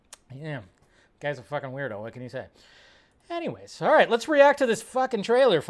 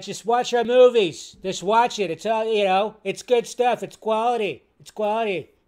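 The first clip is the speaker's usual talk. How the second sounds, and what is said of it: Imitates another person's voice. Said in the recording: “too much Trump impression. My lips get all weird and funky when I do that. You have to do the lips when you do a Trump impression. You have to push out the lips”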